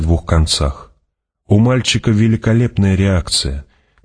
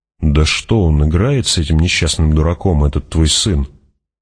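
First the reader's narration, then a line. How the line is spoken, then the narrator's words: Muttering. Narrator (Russian): пробормотал Стилгер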